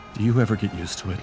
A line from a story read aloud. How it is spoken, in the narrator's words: He asked quietly, not really intending to be overheard